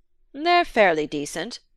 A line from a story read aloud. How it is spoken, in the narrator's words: the other assented, in the curt tone of the collector who will not talk of his passion for fear of talking of nothing else